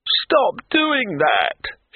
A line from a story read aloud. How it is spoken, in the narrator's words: shrieked Broadman from under the table